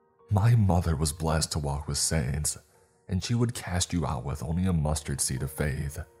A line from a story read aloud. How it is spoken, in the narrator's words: snapped